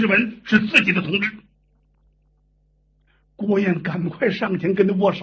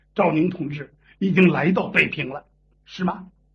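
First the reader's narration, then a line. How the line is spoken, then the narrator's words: Lowered voice. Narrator (Chinese): 压低了嗓音，告诉了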